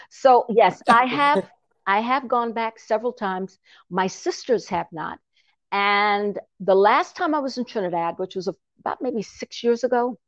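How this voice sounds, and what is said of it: Mixed Trinidadian and American accent. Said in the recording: “Trinidad for me is half and half, because I'm half Trini, half Yankee. You hear that accent?”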